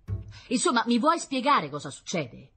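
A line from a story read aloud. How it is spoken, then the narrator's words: Shouting. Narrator (Italian): gridava la sora Cecilia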